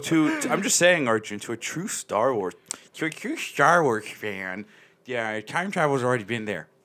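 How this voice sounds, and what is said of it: Nerdy put-on voice. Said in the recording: “That was my nerd voice.”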